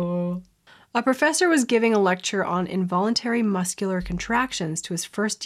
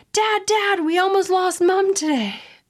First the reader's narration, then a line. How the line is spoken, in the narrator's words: Billy yelling